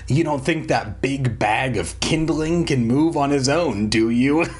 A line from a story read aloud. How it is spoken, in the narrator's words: Slappy sneered